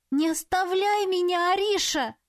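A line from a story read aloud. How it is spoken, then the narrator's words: Frightened wail. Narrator (Russian): взвыла испуганно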